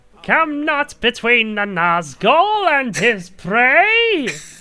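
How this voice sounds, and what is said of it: Imitated villain voice, Skeletor-like. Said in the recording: “sounds like Skeletor ... That's my impression,”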